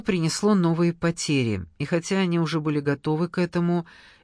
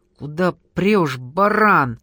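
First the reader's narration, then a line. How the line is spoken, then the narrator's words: Angry curse. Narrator (Russian): зло выругался Денис на водителя битой 14-й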